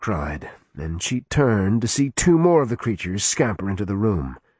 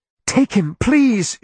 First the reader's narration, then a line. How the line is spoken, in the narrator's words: she begged